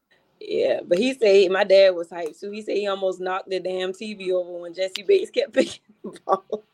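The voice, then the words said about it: Hoarse, strained, losing voice. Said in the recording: “can y'all even talk? Like, I'm losing my voice.”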